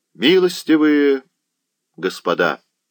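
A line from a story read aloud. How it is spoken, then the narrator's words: Resonant, carrying voice. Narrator (Russian): сказал князь звучным голосом, который в тишине был услышан каждым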